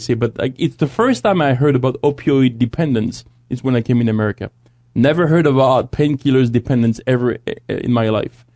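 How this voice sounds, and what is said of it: Non-native, French-sounding accent. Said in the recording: “You can tell from my accent ... obviously, you can hear I'm not from here ... our producer Sebastian is also from France”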